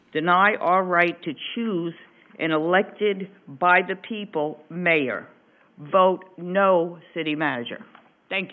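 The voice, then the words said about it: Northern US Yankee accent. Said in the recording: “she's a Yankee ... I did wonder where that accent came from. I couldn't quite place it.”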